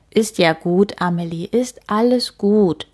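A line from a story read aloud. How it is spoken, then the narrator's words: Plain. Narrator (German): sagt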